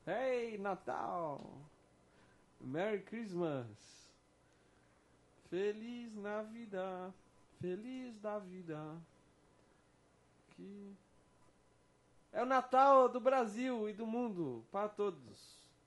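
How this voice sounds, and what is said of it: Santa Claus character voice. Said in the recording (Portuguese): “Imitando o Papai Noel”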